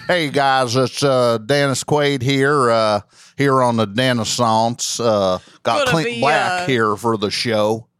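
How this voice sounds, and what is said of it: Imitated voice with Southern accent. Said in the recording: “Now he's got a Southern accent.”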